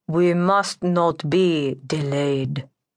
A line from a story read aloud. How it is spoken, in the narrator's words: the lord stated in a droning monotone